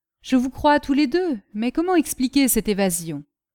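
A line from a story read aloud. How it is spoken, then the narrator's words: Very conciliatory tone. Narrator (French): D'un ton fort conciliant, Castelrajac continua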